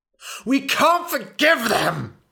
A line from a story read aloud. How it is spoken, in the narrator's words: screamed